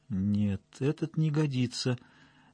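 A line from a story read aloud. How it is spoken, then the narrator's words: Thoughtful. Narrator (Russian): задумчиво произнес Есипов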